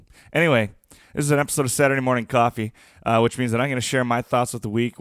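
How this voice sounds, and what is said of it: Deeper, more masculine morning voice. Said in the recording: “my awesome morning podcast voice. ... Sound a little bit more masculine than usual.”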